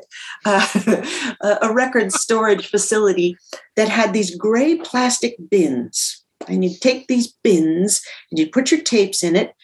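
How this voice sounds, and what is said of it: Minnesota accent. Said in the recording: “here comes my Minnesota accent again”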